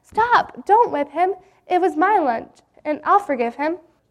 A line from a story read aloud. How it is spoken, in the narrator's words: Jim cried out